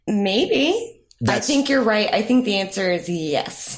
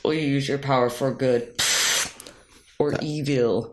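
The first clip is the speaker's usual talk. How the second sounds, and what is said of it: Bane villain voice impression. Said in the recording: “I like that impression. That was good... That was Bane... You got to be a little more nasal”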